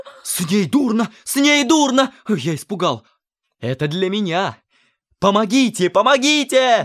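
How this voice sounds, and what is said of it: Shouting. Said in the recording (Russian): “не кричите”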